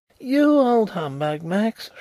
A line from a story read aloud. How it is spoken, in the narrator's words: shrieked Carlyle